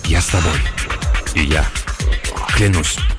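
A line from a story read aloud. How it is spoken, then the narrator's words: Whispering, several voices. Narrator (Russian): Остальные один за другим ... шептать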